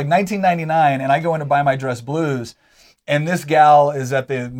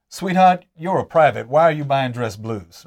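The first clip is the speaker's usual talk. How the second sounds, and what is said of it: Put-on Southern accent. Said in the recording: “southern accent there. That's, that's cute.”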